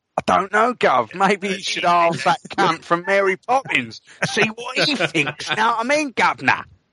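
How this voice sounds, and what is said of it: Exaggerated bad British accent. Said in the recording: “why is Channing Tatum doing a horrible British accent?”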